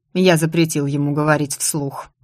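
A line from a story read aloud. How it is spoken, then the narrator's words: Tired remark. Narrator (Russian): устало заметил Ирвин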